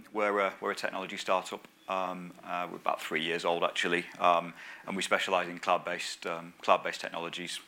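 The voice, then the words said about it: Northern English accent. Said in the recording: “I'm a northerner, as you can probably tell... hopefully you can understand my accent.”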